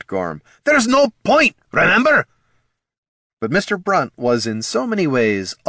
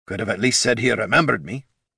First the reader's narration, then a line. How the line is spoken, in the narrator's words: Gorm grumbled